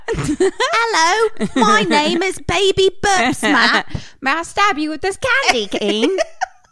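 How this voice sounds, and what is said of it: Put-on British accent. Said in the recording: “he would have had a British accent.”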